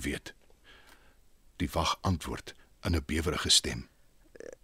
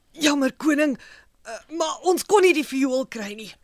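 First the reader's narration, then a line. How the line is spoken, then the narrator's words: Fearful. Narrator (Afrikaans): Hy kyk bang na die koning en sê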